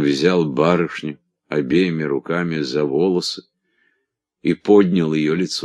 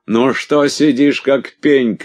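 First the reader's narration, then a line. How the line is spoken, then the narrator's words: Shouted. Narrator (Russian): крикнул мне Косеваги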